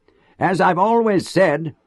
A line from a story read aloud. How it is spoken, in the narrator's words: his voice carried to the furthest corners